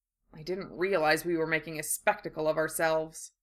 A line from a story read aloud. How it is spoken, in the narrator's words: Harry muttered